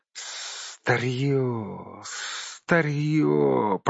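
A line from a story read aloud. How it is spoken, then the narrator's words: Hiss. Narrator (Russian): прошипел он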